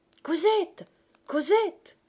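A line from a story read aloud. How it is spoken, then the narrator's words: Shouted. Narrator (French): cria-t-il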